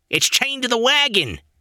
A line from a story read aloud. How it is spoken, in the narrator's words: he shouted